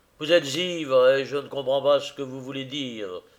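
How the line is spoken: Harsh. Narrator (French): fit-il durement

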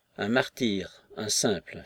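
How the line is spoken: Faint sigh. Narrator (French): fit la dame de compagnie, avec un faible soupir

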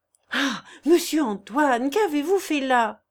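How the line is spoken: Exclaiming. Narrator (French): s'écria Janille

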